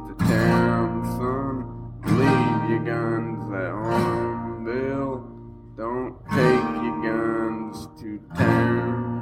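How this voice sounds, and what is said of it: Singing with country twang. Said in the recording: “You got that good country twang. ... It's that accent thing he's got going on.”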